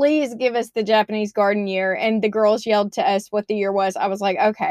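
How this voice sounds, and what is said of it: Usual voice. Nothing is said of it.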